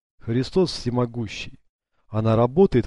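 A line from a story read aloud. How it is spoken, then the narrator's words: Exclaiming. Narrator (Russian): воскликнул Леонардо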